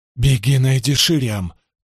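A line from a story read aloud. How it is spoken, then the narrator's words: Hurried. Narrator (Russian): торопливо проговорила она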